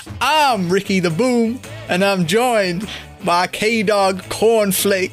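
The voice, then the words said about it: Put-on Texas-like Southern accent. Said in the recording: “That sounds more like a Texas accent than a Virginia one.”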